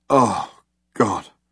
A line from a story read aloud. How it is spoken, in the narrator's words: muttered Ford